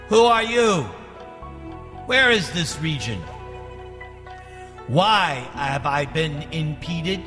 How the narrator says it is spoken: Ravana called out

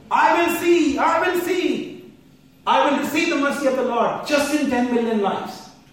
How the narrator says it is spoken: started shouting on top of his voice

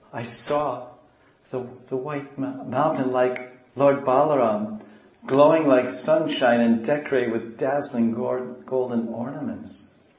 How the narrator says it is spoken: In a faltering voice, Gaura said

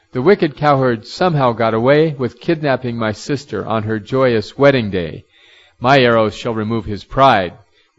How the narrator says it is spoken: Rukmi cried out

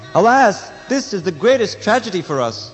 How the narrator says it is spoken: When Lord Krishna and Lord Balaram heard this news, they exclaimed

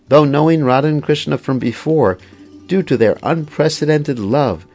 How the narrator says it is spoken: the peacocks madly cried out

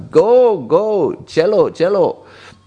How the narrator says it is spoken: he just shouted out

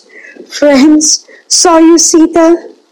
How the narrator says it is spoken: cried amidst blinding tears

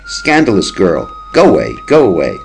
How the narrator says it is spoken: Lalita, laughing, says

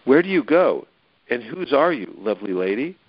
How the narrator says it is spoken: he asked

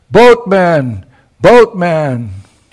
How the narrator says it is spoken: she cleared her voice and she called out loudly

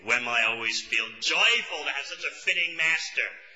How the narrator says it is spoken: Yamunachar is exclaiming

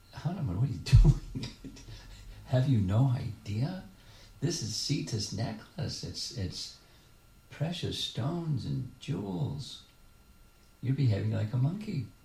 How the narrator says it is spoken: And Lakshman laughed and said

